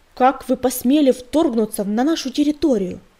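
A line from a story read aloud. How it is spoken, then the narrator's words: Shouting. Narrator (Russian): закричал он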